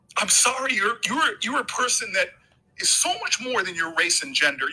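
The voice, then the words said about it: Emotional, choked-up voice. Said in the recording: “this is why I get emotional”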